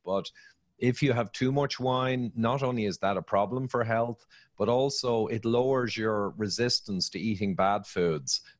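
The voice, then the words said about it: Speaks with a noticeable accent. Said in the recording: “I really love your accent. I could listen to you talk all day.”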